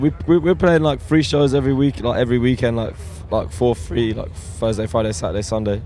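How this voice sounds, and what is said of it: Slightly hoarse, strained voice. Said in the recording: “I'm losing my voice a little bit”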